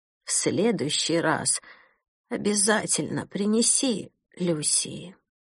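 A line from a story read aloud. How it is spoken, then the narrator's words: Quiet sleepy murmur. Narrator (Russian): женщина успокоилась и уже сквозь сон тихо произнесла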